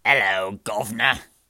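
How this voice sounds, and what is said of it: Imitated British cartoon taxi voice. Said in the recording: “my imitation of the British taxi”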